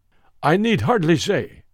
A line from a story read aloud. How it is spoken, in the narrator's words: said Mr